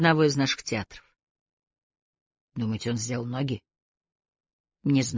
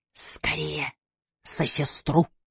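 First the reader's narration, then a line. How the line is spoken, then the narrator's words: Hurried whisper. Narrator (Russian): успел шепнуть Найджел Бадгейт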